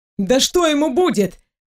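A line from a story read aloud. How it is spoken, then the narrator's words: Dismissive snort. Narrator (Russian): хмыкнул парень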